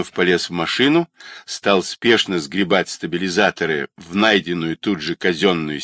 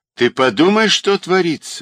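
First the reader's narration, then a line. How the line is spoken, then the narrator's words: Delighted, joyful exclamation. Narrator (Russian): восхищенно и радостно восклицал он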